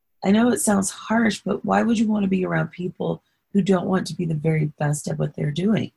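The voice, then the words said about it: Hoarse voice. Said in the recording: “my throat is so hoarse”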